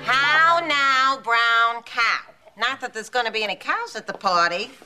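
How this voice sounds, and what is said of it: Odd accent dropping the R. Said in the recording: “Your accent, it's so odd ... let's try to capture that elusive letter R”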